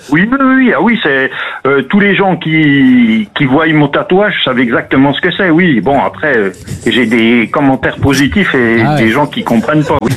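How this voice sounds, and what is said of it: Mild Franche-Comté regional French accent. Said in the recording (French): “l'accent magnifique ... l'accent du Jura ... l'accent doubiste ... En Franche-Comté, oui, effectivement, on a un accent qui se reconnaît facilement ... légèrement ... franchement, discret”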